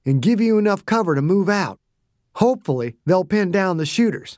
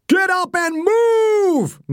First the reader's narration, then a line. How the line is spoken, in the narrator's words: Nail screamed